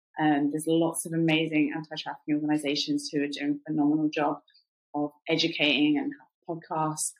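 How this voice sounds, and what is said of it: British accent. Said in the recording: “because of my British accent, I often get asked like, "What are you doing in America?"”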